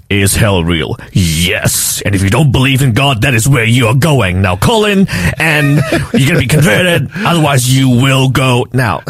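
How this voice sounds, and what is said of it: Deep, serious mock-preacher voice. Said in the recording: “I'm going to put on my deepest and most serious voice here.”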